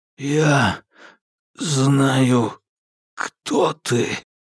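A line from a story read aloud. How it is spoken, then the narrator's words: Hoarse rasp. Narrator (Russian): наконец прохрипел Алби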